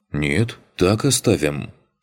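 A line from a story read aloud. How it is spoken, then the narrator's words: Snort. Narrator (Russian): хмыкнул Макс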